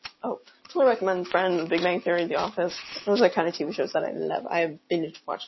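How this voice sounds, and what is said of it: Usual voice. Nothing is said of it.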